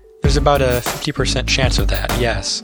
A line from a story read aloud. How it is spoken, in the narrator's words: says the doctor